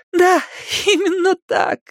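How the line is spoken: Exclaiming, laughing and crying. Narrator (Russian): воскликнула Беверли, смеясь и плача одновременно

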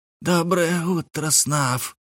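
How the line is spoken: Hiss from the grass. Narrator (Russian): раздалось из придорожной травы чье-то шипение

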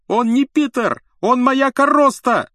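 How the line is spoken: Wailing yell. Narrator (Russian): завопил Рон

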